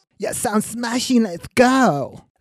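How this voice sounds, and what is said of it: Dreadful common fake English accent. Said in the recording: “That accent, I can't stand it. It's bloody dreadful. ... her accent may be common”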